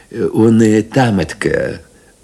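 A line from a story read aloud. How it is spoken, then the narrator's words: Timid addition. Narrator (Russian): робко прибавил Панкрат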